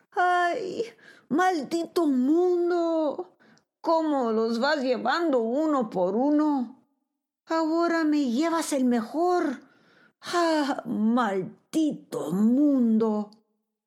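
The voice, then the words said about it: Heartrending anguished shouting. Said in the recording (Spanish): “comenzó a gritar con acento desgarrador”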